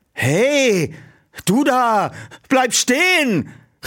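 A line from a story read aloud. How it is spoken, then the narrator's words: Call. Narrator (German): rief Peter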